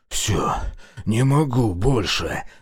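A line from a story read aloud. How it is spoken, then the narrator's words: Wheezing rasp. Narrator (Russian): захрипел Решетов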